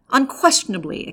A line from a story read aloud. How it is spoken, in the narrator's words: exclaimed Ordynsky